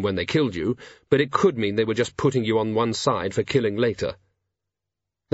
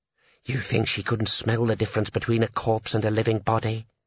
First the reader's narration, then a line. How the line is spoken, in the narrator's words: Sergeant Colan moaned softly